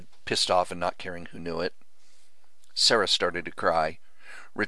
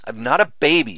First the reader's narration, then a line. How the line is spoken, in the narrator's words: Sarah said between sobs